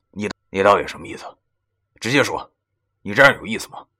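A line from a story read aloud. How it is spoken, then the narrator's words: Quiet, annoyed. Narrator (Chinese): 我的话声音不大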